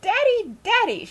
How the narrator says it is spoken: squealed

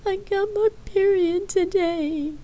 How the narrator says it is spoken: she cried harder

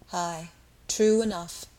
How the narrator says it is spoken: with a deep sigh

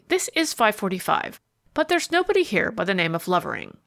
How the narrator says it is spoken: answered testily

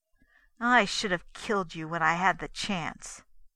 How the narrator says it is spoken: he said bitterly

